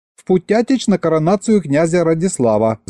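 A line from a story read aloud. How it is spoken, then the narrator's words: Hasty rapid chatter. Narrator (Russian): затараторила поспешно Маша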